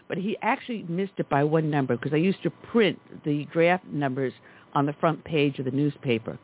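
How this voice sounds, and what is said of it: Native New York accent. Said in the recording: “You can tell from my dialect, native New York.”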